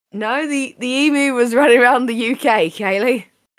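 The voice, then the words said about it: Put-on Australian accent. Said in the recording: “Don't know why I've adopted an Australian accent.”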